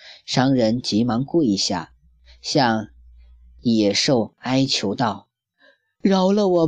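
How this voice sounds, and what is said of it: Usual voice. Nothing is said of it.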